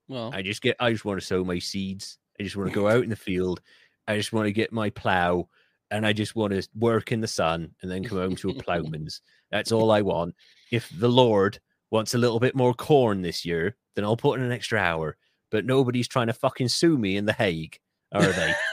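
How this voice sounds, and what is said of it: Put-on Bristol West Country accent. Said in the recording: “my Sark impression, mostly Bristol”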